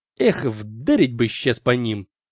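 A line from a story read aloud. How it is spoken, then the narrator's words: Soldier hissing. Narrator (Russian): прошипел кто-то из моего отделения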